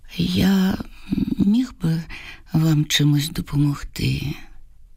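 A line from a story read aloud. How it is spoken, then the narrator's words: Soft, nearly inaudible question. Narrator (Ukrainian): Василь питає м'яким, майже нечутним голосом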